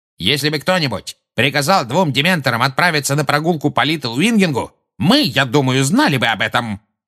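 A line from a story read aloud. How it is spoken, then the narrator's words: Barking, man. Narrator (Russian): рявкнул Фадж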